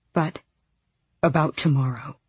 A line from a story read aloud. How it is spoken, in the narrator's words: he said tightly